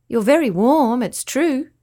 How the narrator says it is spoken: Avalon said happily

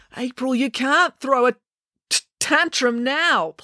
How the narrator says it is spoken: pleaded Joe

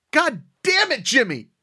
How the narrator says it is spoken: I yelled out

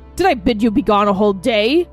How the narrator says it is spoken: He roared

